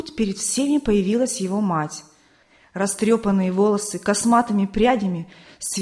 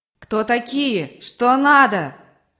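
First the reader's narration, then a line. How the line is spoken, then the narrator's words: Mother shouting. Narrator (Russian): кричала мать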